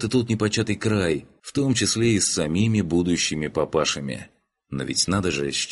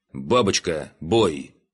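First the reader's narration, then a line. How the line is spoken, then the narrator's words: Commanding. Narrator (Russian): скомандовал лейтенант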